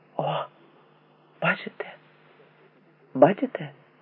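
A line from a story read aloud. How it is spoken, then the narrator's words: Quiet cautious whisper. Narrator (Ukrainian): Тихо прошепотів, наче боявся сполохати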